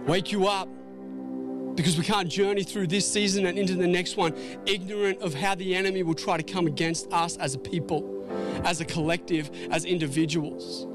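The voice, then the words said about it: Loud, yelling preaching voice. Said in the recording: “I'm getting real carried away this morning. I, feel like I'm yelling. I don't mean to be yelling.”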